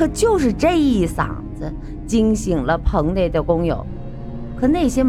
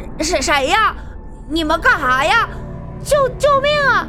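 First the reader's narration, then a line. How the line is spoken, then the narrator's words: Terrified scream. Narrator (Chinese): 吓得惊声喊起来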